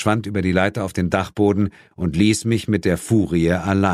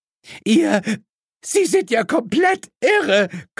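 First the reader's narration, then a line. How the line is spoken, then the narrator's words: Shriek. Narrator (German): kreischte Mrs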